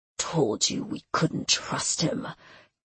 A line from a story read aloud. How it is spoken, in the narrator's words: Callan grunted, his voice thick with pain